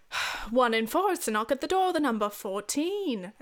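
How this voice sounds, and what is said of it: Weak put-on British accent. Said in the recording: “This is a terrible British accent. I will never get better at my British accent.”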